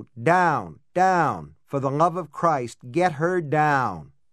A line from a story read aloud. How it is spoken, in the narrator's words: George Kennedy bellow